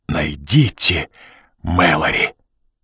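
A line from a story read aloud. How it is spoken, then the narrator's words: Hoarse rasp. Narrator (Russian): Прохрипела она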